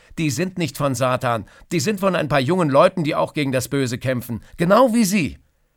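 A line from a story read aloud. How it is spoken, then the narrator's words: Detective calling out. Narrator (German): ruft der Detektiv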